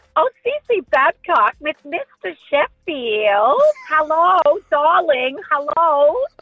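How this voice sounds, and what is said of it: Bad impression of the Nanny. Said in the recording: “your laugh reminds me more of the nanny ... It's not great, but it's not bad ... It's terrible ... Bad impression ... Pretty bad. Pretty bad. Not one of the greatest.”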